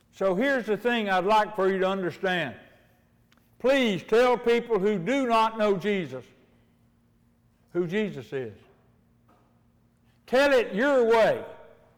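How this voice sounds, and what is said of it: Hillbilly accent. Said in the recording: “a hillbilly accent I got”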